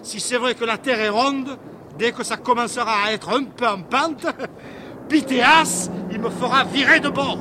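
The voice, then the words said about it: Marseille accent. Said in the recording (French): “cet accent marseillais”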